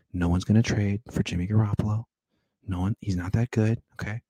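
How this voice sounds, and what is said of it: Hushed golf announcer voice. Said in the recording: “I'm going golf announcer voice right now”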